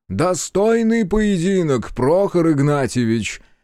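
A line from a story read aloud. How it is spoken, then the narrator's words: Loud. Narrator (Russian): громко произнес он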